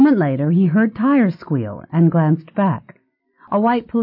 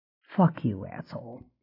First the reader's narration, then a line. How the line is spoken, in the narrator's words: he muttered